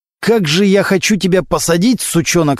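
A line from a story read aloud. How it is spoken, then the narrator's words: Prosecutor, through gritted teeth. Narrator (Russian): сказал сквозь зубы прокурор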